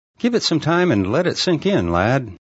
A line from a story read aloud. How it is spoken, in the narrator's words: Shadow laughed